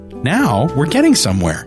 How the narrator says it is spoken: she said, bouncing excitedly

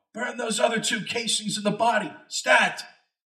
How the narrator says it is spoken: Doug yell

